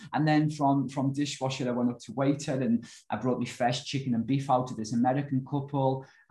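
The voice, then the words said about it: Liverpool English accent. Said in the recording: “where's that accent from? ... Liverpool.”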